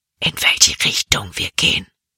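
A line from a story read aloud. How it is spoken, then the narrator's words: Whisper. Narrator (German): flüsterte Jordan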